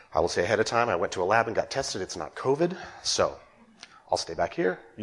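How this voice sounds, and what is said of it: Congested voice from a cold. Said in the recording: “As you hear in my voice, I'm also carrying a little bit of cold.”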